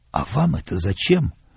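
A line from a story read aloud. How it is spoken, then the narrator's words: Whispered question. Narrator (Russian): спросил я его шепотом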